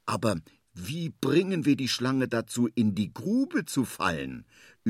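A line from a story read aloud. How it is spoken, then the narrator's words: Thinking aloud. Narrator (German): überlegt er laut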